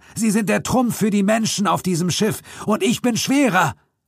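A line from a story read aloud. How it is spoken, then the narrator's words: Roared. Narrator (German): brüllte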